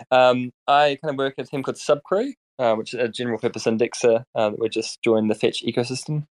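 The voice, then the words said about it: New Zealand accent, mumbled speech. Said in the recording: “my terrible accent. I'm from New Zealand. We kind of tend to mumble everything we say”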